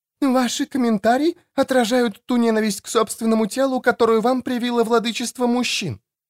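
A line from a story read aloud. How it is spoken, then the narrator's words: Exclaiming female mentor. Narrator (Russian): воскликнула наставница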